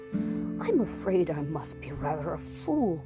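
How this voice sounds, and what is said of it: Shaking, frightened character voice. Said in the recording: “in a shaking voice”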